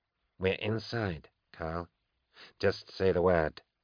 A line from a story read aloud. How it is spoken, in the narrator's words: whispered